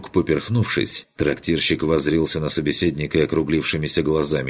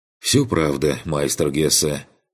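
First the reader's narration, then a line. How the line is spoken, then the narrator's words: Sighing. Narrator (Russian): вздохнул Карл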